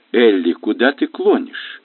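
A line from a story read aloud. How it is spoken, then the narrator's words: Gentle question. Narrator (Russian): мягко осведомился Бен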